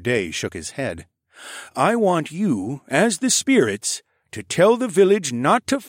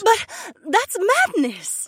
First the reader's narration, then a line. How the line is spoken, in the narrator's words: Emma cried